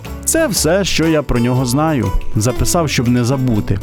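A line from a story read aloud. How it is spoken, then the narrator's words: Plain, old man. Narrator (Ukrainian): сказав дідусь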